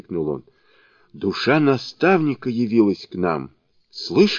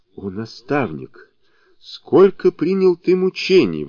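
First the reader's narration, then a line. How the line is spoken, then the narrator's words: Exclaiming. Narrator (Russian): воскликнул он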